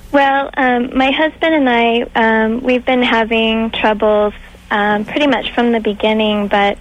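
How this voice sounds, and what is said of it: Very young girlish voice. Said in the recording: “that girl, that girl voice... Not little girl... you're very young voice”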